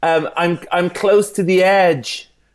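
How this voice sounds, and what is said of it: Bono impression. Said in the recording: “Is that the impression? ... Bono?”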